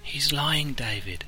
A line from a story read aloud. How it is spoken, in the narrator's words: whispered the Vulcan